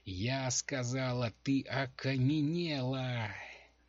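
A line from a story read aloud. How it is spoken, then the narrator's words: Screamed. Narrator (Russian): завопила Дженси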